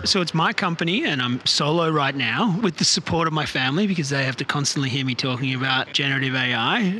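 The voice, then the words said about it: Australian accent. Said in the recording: “I'm originally from Australia. You can probably hear from my accent”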